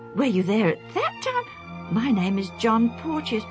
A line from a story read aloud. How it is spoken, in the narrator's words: the younger man exclaimed in turn